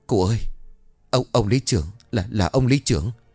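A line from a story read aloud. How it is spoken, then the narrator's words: Trembling voice. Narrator (Vietnamese): Anh Sử bấy giờ run rẩy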